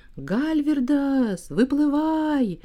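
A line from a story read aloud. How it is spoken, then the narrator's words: Shouting. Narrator (Russian): да как закричит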